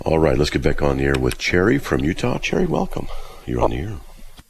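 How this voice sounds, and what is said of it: Raspy, deeper-than-normal voice. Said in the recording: “I was out Thursday and Friday with a bad head cold. I'm still getting over it... tell my voice is a little bit extra, a little bit raspy, a little bit deeper than normal.”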